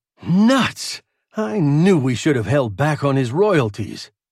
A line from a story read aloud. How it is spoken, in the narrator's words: exclaimed